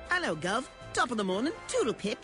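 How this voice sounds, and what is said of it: Put-on English accent. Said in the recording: “I could do an English accent instead ... Actually, that was pretty good.”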